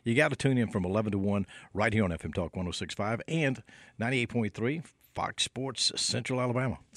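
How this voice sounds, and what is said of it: Announcer-style radio voice. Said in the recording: “See, that's a radio voice.”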